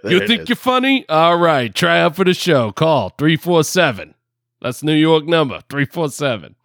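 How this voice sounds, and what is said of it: Put-on New York accent. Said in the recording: “I don't know why I'm still in this freaking New York accent.”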